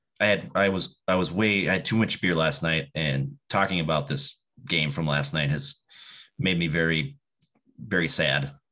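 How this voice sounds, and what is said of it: Deeper, tired-sounding voice. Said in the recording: “your voice is a little deeper than usual ... Tired.”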